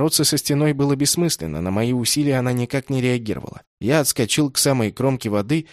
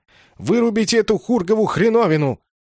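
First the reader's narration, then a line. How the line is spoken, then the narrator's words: Yell. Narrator (Russian): заорал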